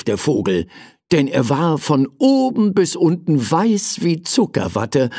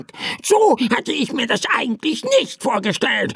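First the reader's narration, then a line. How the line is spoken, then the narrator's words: Annoyed bird croaking. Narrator (German): krächzte der Vogel verärgert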